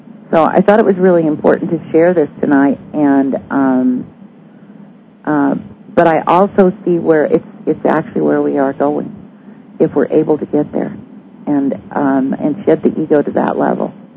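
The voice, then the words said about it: Strained, fading voice. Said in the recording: “I'm losing my voice, ... I've been talking nonstop since, I don't know, very early this morning.”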